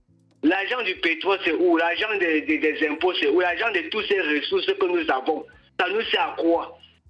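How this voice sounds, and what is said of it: Cameroonian Bafoussam regional French accent. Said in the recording (French): “J'ai reconnu ton accent de Bafoussam”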